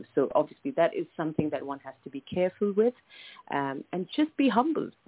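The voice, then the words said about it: Speaks with a noticeable accent. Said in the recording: “I love the accent, by the way. You have an amazing accent. I just absolutely love that accent.”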